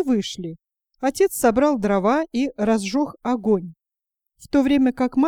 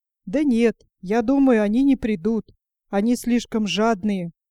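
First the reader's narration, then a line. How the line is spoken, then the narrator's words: Plain. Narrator (Russian): ответил Пипири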